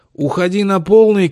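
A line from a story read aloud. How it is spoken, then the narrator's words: Shout. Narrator (Russian): крикнул Августин Ксюше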